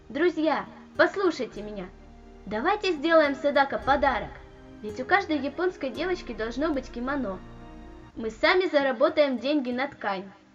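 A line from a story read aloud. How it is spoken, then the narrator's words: Loud, enthusiastic exclamation. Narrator (Russian): громко и воодушевленно воскликнула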